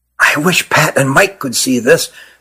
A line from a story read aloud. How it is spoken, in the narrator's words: whispered Nathan to his brother